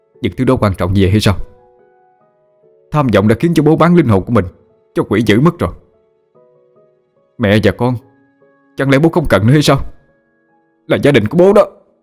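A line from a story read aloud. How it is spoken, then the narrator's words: Anguished disappointed shouting. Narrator (Vietnamese): Sự thất vọng và đau khổ cùng cực khiến cho anh ... hét lớn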